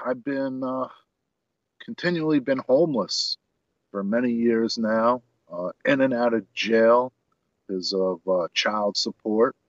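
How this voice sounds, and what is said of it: New York accent. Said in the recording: “you hear that accent coming out of me from New York”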